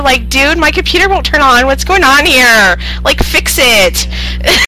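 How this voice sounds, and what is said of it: Put-on California Valley Girl voice. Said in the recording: “She said I sounded like a dumb surfer student ... Yeah, like Valley Girl.”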